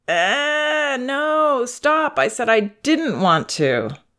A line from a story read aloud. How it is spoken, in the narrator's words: she whines